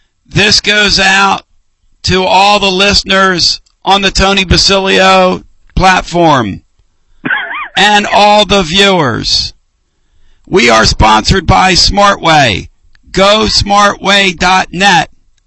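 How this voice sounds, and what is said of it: Imitates another person's voice. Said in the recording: “my Action Jackson impersonation”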